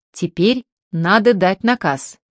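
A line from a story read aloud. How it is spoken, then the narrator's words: Plain. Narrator (Russian): сказал командир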